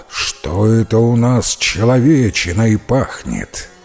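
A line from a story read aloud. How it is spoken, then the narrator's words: Growling giant. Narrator (Russian): великан Драк и тотчас зарычал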